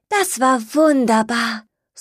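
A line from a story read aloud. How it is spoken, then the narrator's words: Happy sigh, small animal. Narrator (German): seufzte das kleine Stinktier glücklich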